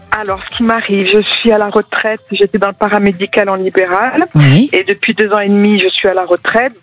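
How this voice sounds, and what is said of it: Light Marseille accent. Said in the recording (French): “quel joli accent en Marseille ... Un léger que j'adore ... Un petit peu léger.”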